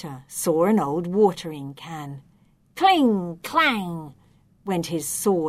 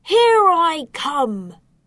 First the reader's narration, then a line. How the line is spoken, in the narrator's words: he shouted